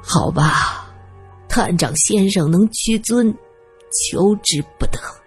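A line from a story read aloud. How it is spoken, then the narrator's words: Sighing. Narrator (Chinese): 花伯看着女儿，叹了口气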